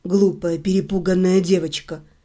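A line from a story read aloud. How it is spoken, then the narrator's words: Whispered. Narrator (Russian): прошептал он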